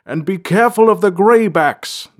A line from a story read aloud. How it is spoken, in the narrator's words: the king's voice boomed down the stairs